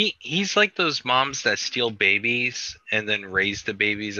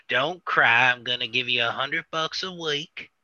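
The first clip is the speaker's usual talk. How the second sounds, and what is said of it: Imitates another person's voice. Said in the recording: “That is a great Joe Exotic impression. ... the first time I tried doing the voice”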